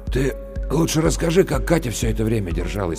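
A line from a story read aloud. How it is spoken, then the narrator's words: Hoarse interruption. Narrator (Russian): прервал Максим Лешин монолог хриплым голосом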